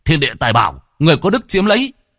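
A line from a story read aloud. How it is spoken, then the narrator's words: Single shout. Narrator (Vietnamese): Lâm Phong chỉ hét lên một tiếng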